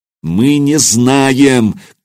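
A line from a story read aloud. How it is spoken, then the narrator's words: Shouting in her face. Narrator (Russian): крикнул я ей в лицо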